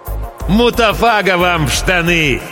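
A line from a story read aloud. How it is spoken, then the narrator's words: Friendly smiling shout. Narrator (Russian): Приветливо улыбаясь, крикнул я в ответ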